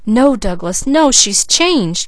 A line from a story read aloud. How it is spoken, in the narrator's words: cried Leslie